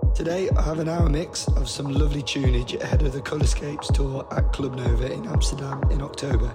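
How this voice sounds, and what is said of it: Croaky, hoarse voice. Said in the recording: “a very croaky boxer. I lost my voice last weekend and it's still not come back”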